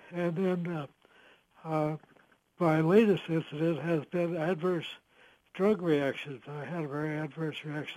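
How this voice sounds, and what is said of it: Hoarse voice. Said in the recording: “My voice is rather hoarse.”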